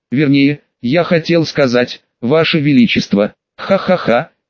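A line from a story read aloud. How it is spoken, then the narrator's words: Quiet laughter. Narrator (Russian): тихо засмеялся тот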